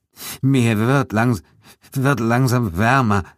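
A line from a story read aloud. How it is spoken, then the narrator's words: Trembling voice. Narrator (German): sagte mit zittriger Stimme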